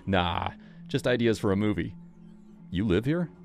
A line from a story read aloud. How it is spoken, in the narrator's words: Kevin chuckled